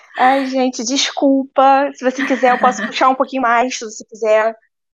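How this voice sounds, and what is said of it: Carioca Brazilian Portuguese accent. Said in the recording (Portuguese): “teremos sotaque carioquês. Eu amo esse sotaque.”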